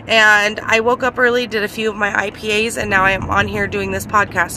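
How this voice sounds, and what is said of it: Sleepy, slightly congested voice. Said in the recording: “you can probably tell it's early for me right now. ... I have a little bit of a cold”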